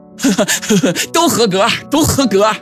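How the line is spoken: Laughing. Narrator (Chinese): 吴志明笑道

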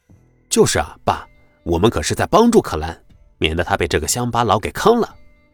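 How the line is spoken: Laughing. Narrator (Chinese): 秦牧笑着说道

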